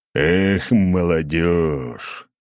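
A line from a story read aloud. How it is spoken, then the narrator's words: General's wry grunt. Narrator (Russian): хмыкнул генерал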